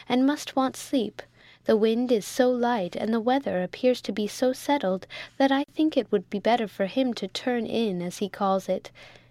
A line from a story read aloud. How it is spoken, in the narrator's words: said Rose kindly